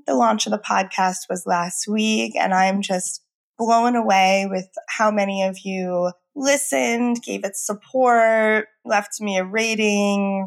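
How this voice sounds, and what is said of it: Voice hoarse from illness. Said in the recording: “Excuse my voice. I'm still getting over being sick”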